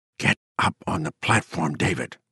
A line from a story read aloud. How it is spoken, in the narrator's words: Hilly whispered grimly